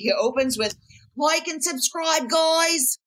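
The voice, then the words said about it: Put-on British accent. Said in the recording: “That's not his British accent, but it's some version of that.”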